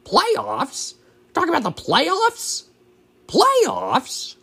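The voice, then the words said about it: Imitates another person's voice. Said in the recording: “do my lousy impression of him”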